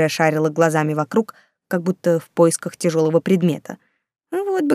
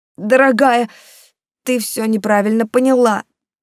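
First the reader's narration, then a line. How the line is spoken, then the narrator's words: Wailing. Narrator (Russian): взвыл он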